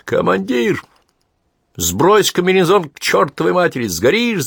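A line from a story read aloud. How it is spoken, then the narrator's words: Shout. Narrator (Russian): закричал Виктор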